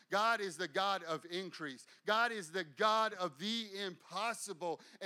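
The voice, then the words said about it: Loud, fired-up excited preaching. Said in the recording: “And I know I'm fired up today. And you're like, why are you yelling at me? I'm not yelling at you. I'm just excited.”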